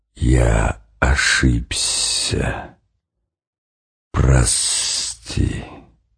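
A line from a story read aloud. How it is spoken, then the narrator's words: Vast hissing whisper. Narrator (Russian): кто-то незримый, но все равно очень большой, как само небо, как невиданное до сих пор море, сказал ему свистящим шепотом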